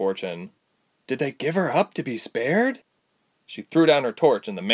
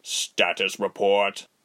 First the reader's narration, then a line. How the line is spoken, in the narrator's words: Rubens asked stiffly and formally